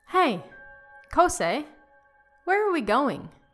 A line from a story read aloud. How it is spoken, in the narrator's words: Toshikazu asked